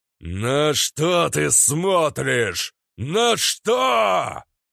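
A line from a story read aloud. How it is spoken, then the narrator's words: Thunderous, space-shaking growl. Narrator (Russian): прорычал Верховный так, что завибрировало само пространство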